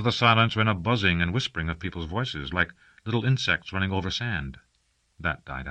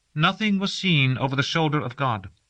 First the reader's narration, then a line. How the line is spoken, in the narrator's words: the oldest dream priest said in her thin, clear voice